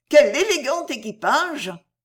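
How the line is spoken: Exclaimed. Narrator (French): s'écria-t-elle

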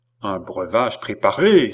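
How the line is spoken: Exclaimed. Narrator (French): s'écria Philippe

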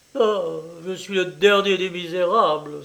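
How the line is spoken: Man exclaiming. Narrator (French): s'écria-t-il

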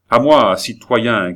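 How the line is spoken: Shouting. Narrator (French): cria-t-il

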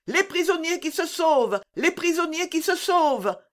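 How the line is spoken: Sergeant shouting. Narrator (French): cria le sergent

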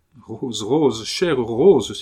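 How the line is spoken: Exclaiming. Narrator (French): s'écria Ludovic

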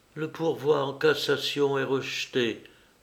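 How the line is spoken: Female stammering. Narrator (French): balbutia-t-elle

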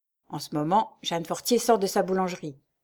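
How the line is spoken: Murmured. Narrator (French): murmura-t-il

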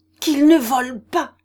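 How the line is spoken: Angry choked reply. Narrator (French): répliqua le jeune homme d'une voix presque étranglée par la colère

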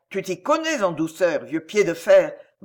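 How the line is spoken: Growl. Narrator (French): grogna Bagheera

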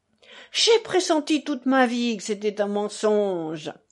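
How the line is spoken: Excited exclamation. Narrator (French): s'exclama Fyodor Pavlovitch en s'emballant

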